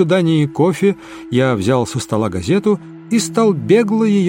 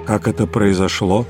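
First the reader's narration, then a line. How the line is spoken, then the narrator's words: Calm, hiding deep agitation. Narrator (Russian): Он говорил спокойно, но я видел, что он глубоко взволнован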